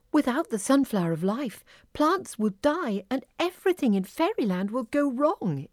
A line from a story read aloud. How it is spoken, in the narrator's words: exclaimed Sunflower